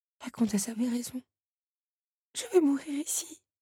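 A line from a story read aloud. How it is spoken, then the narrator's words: Breathy whisper. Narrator (French): souffla Belle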